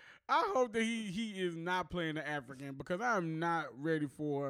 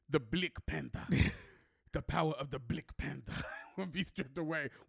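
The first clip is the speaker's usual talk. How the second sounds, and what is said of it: Imitates a bad African accent. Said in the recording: “another horrible African accent ... Forrest Whitaker in Black Panther ... he never said Black Panther the entire movie”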